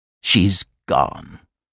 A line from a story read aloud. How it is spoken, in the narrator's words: muttered